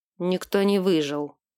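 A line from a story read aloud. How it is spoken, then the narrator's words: Gruff grumble. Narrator (Russian): буркнул Альфин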